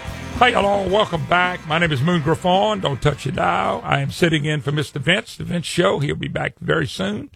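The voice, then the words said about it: Louisiana accent. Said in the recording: “don't recognize that accent. It's Louisiana, trust me. They all talk funny down here.”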